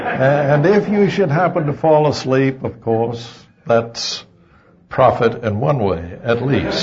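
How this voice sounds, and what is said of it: Southern US accent. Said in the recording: “enjoy my southern accent”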